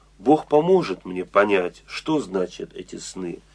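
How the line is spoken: Plain. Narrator (Russian): сказал им Иосиф

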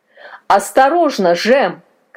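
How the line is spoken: Old man shouting. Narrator (Russian): крикнул дед

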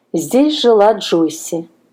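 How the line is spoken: Plain. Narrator (Russian): сказала она

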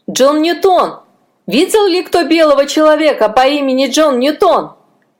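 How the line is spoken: Unseen shout. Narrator (Russian): кто кричал

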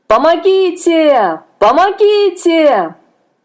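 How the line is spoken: Shout with last strength. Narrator (Russian): Собрав последние силы, он закричал

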